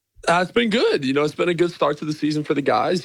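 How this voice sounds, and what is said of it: American accent. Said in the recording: “You've come over from the United States, plainly with the accent”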